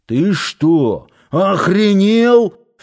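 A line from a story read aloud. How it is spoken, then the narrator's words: Furious yelling. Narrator (Russian): впервые, пожалуй, с настоящей злостью заорал на него Парсыкин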